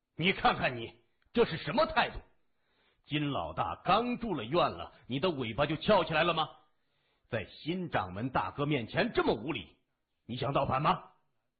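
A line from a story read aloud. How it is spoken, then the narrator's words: Furious roar. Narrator (Chinese): 雷霆怒吼一声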